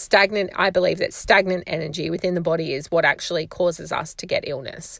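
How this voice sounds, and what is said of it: Voice giving out, strained. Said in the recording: “my voice is starting to go on me”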